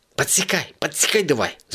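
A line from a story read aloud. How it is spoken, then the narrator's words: Frantic hiss. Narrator (Russian): зашипела кошка, как безумная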